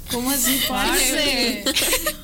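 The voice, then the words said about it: Put-on Colombian Spanish accent. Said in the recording (Spanish): “el acento colombiano ... Bueno, pero sí, le sale algo.”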